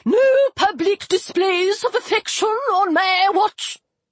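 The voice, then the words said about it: Squeaky character voice. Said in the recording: “squeaky voice”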